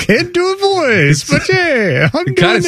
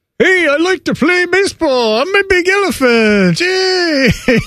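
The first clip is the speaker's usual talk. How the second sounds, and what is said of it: Cartoon playful elephant voice, accented. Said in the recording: “can you do a cartoon voice ... How about an elephant? How about a playful elephant who likes to play baseball? ... It kind of sounds like Gary Player ... Why is there an accent on the elephant?”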